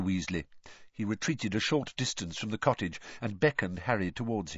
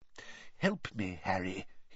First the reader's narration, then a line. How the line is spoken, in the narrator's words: he muttered